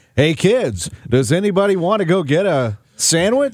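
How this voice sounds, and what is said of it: Exaggerated radio announcer voice. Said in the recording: “I have my voice and then I have a radio voice.”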